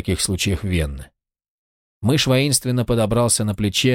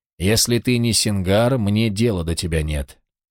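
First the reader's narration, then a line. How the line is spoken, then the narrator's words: Even voice. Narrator (Russian): Он ответил ровным голосом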